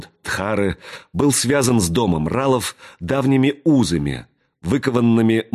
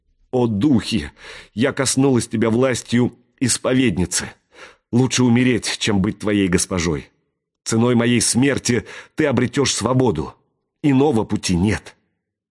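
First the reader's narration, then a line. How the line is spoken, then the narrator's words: Sobbing. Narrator (Russian): вновь зашлась в рыданиях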